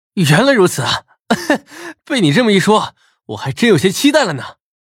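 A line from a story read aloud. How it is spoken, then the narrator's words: Laughing. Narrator (Chinese): 陈破军 笑道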